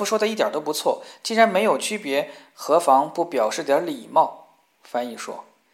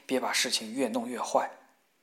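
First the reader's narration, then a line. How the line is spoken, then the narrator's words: Soft. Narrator (Chinese): 法比轻声说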